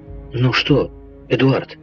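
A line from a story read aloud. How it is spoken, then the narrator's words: Exclaiming. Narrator (Russian): воскликнула Элен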